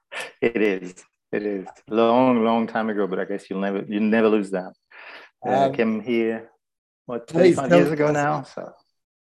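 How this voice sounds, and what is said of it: Strong French accent. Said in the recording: “one of the most outstanding accents. It's French, isn't it?”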